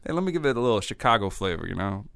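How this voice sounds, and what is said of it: Mock Chicago-flavored accent with attitude. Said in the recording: “he sounds like he's from like Chicago a little bit ... it's not good ... I think he's trying to add attitude, but it's just not working”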